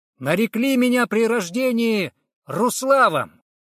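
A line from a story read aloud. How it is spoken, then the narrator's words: Loud declaration. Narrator (Russian): громко произнес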